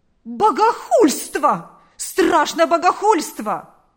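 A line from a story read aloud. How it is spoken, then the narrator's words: Exclaimed. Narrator (Russian): воскликнул он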